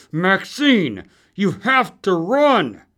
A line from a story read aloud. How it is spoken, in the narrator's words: Through gritted teeth, with not nearly enough air, he said